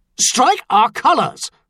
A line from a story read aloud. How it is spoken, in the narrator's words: Sowell snapped